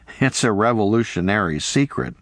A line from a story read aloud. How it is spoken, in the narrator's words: he laughed